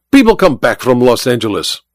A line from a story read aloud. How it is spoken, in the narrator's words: Olga snapped